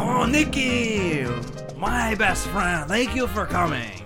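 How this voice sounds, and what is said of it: Put-on French-sounding accent. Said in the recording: “You sound a little bit more French than Spanish than you have the past.”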